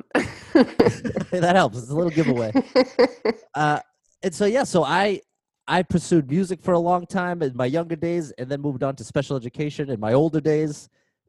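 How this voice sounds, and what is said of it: Massachusetts New England accent. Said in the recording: “We can tell by your accent where you're from.”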